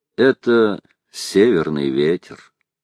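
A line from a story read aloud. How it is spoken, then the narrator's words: Calm, smiling. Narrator (Russian): Он улыбнулся и спокойно сказал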